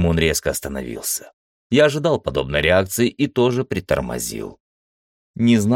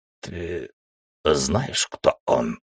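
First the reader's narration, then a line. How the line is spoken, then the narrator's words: Hoarse question. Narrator (Russian): хрипло уточнил Теремун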